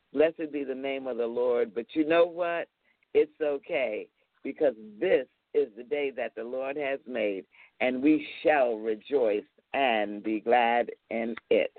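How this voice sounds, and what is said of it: Rough, hoarse voice. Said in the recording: “my voice is a little rough today”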